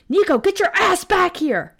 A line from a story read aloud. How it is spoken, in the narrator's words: I screamed